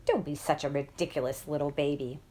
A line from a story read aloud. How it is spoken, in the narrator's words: muttering